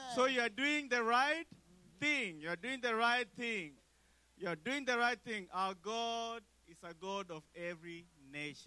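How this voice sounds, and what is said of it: East African Kenyan accent. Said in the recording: “regardless of my accent, I'm from East Africa, Kenya. Regardless of my accent,”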